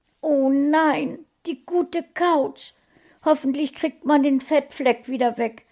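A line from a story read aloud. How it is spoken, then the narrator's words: Wailing lament. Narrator (German): jammerte Frauchen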